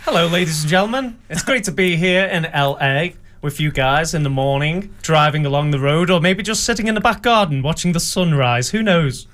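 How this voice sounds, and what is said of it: Genuine British accent. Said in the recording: “That's a real British accent.”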